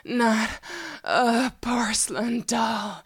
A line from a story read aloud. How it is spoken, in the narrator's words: with a smile on my face, I moaned